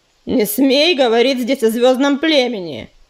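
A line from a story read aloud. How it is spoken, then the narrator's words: Barked. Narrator (Russian): рявкнул Звездоцап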